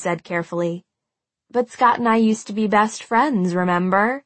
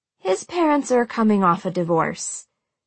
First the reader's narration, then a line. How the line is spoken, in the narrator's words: she said in that same carefully neutral tone